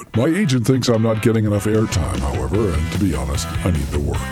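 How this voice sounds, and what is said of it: Deep announcer voice. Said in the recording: “the deep voice from the Heidelcast”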